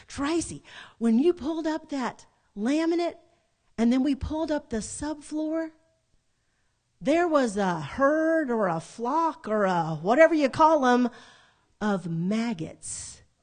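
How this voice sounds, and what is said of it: Imitated Southern accent. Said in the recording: “in her southern accent”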